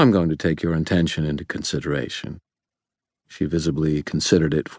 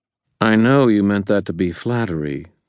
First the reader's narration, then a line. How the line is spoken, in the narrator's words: Lara said, her tone wry